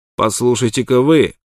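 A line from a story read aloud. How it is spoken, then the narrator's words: Rude. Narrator (Russian): грубо сказал Шенк Уилсон, обращаясь к Смоку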